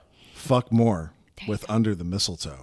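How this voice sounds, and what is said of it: Put-on sexy voice. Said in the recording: “sexy voice, please. ... Try again.”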